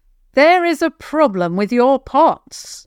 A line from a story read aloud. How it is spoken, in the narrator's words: Javan called out, not wanting to get any closer